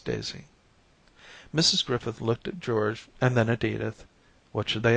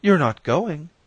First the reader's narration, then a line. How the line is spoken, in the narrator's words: cried her mother